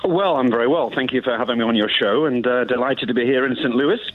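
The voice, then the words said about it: British Queen's English accent. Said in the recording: “you've got the greatest accent we've ever had on this station ... my accent, but it's more Queen's English than nothing else”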